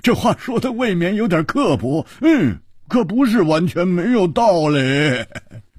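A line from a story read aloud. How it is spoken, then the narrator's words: Loud laughter. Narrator (Chinese): 蝴蝶花大笑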